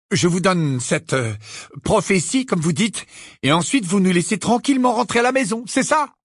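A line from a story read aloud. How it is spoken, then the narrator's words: Shrill cry. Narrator (French): la femme mange-mort s'écria d'une voix suraiguë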